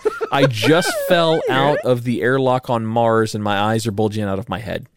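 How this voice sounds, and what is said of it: Imitates another person's voice. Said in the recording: “my Arnold Schwarzenegger ... That actually wasn't bad.”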